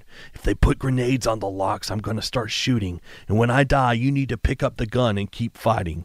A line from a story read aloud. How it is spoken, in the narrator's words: Scream whispered